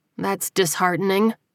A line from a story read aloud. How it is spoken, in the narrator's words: she said dryly